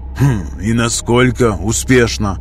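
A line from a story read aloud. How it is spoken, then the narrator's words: Skeptical hum. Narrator (Russian): хмыкнул Астарис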